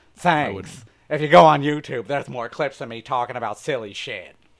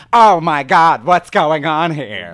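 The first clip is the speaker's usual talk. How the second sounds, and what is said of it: Impression of Roger from American Dad. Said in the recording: “my Roger impression ... That's pretty good, actually ... He's a bite off of Paul Lynde”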